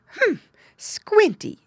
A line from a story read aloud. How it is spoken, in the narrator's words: exclaimed Mrs